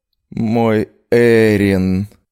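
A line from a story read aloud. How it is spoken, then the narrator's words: Moan muffled by pillow. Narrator (Russian): простонала я вслух, вновь утыкаясь в подушку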